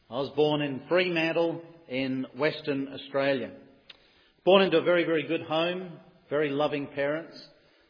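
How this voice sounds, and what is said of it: Australian accent. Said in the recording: “as you can tell by my brogue,”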